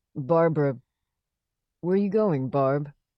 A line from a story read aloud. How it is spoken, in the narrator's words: She laughed